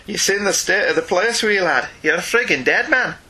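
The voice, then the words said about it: Attempted Irish accent. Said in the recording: “That may have been an Irish accent. It may have not been. You know, who can tell?”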